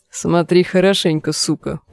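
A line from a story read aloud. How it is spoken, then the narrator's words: Deep bass from behind. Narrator (Russian): пробасил позади Клейтон Сакс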